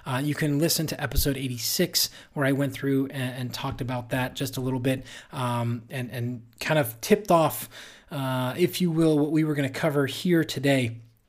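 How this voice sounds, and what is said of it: Dry, slightly strained voice. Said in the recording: “you can hear my voice is getting a little bit dry”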